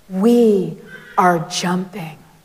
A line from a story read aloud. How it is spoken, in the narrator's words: the rabbi commanded in a powerful voice